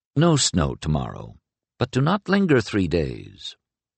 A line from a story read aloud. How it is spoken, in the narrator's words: it added in a far less grave tone